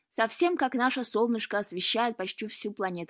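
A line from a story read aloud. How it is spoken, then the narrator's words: Plain. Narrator (Russian): сказала Гренка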